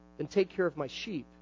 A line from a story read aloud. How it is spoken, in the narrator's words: Jesus said